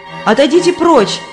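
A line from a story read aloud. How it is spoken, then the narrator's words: Woman shouting. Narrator (Russian): крикнула Христиана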